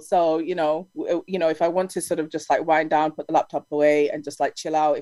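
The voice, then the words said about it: Noticeable regional accent. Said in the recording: “you have a beautiful accent.”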